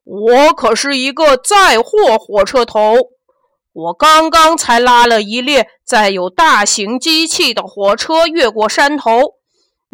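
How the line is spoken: Powerful roar. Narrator (Chinese): 但是强壮大火车头大吼一声

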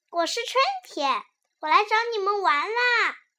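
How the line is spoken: Loud cheerful answer. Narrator (Chinese): 春天大声回答

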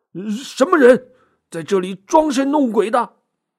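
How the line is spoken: Nervous forced-brave shout. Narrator (Chinese): 仆人壮着胆子喊道

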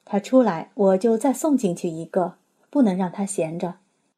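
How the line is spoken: Laughing. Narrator (Chinese): 笑着说

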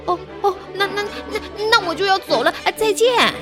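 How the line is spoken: Shouted in unison. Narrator (Chinese): 三只熊异口同声地喊道

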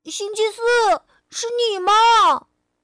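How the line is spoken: Shouting. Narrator (Chinese): 波波喊道

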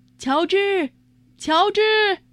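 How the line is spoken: Calling out. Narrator (Chinese): 有人叫他

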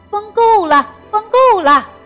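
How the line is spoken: Frightened loud shout. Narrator (Chinese): 皇帝心里害怕，大声地喊道

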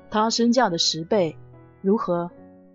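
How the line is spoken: Calm, indifferent. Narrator (Chinese): 男子……淡淡的对人贩说

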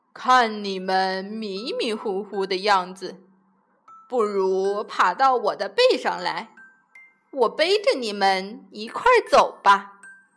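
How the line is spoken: Smiling, kindly. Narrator (Chinese): 水牛笑眯眯地说

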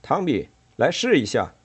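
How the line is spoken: Calling out. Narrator (Chinese): 杰克叫道

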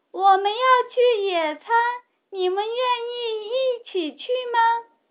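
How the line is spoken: Loud shout. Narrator (Chinese): 米莉大声喊

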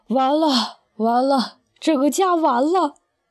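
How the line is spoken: Long despairing sigh. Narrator (Chinese): 爸仰天长叹

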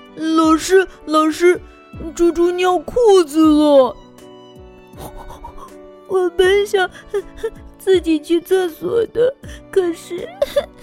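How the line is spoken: Embarrassed crying. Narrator (Chinese): 猪猪难为情的哭了

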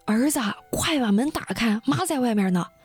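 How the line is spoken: Mother calling out. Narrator (Chinese): 他妈呢，就朝着屋里边喊

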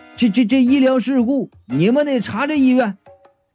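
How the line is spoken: Shouting through megaphone, old man. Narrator (Chinese): 倪大爷用大喇叭对着楼下喊

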